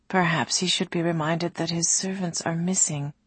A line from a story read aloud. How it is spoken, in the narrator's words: Ali murmured to Ulasim